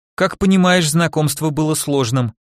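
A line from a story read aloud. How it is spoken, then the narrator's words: Sigh. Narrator (Russian): вздохнула Ксюша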